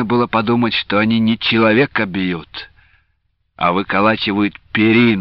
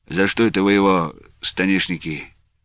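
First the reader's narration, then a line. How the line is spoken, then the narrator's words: Lazy question. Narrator (Russian): Лука Андреевич лениво спросил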